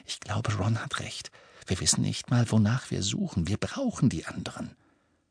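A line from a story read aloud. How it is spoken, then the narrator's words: Murmuring. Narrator (German): Hermine, die jetzt murmelte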